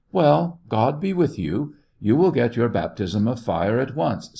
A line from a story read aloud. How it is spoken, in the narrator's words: said the commander of the battery, with a kindly smile